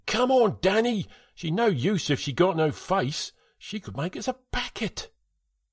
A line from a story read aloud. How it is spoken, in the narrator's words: Todd shouted again